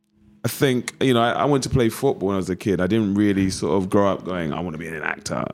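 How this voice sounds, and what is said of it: East London Cockney accent. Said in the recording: “I'm sure you can tell by my accent. ... West uh, Ham. ... Cockney”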